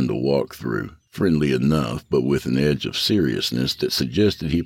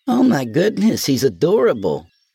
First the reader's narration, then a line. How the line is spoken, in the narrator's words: Kayla exclaimed